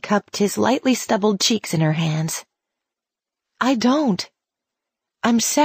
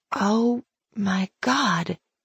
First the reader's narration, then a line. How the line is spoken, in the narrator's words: she whispered, trying to absorb the meaning of his words